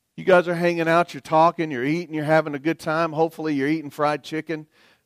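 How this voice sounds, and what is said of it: Southern American accent. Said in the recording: “I'm from the South. Everybody knows that. You can hear it in my voice”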